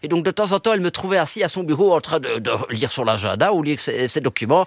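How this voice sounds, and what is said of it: Belgian French accent. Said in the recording (French): “On vous entend avec un accent belge”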